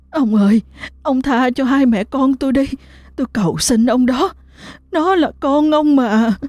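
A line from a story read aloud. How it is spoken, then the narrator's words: Tearful trembling pleading. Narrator (Vietnamese): Tư Mận khóc lóc rung giọng cầu xin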